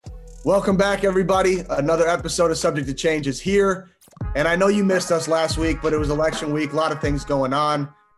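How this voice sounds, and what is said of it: Loud speaking voice. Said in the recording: “I'm talking really loud”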